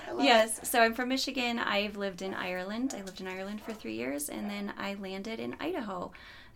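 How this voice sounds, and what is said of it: Michigan accent. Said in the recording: “I am originally from Michigan. You might notice the accent.”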